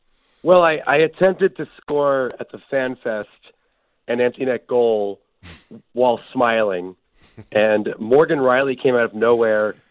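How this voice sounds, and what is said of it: Raspy, hoarse voice from a cold. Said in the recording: “I'm still fighting a cold that I picked up in Toronto. So I'm sorry if I don't sound as I usually do. ... I sound like my great aunt after smoking a pack of Marlboros.”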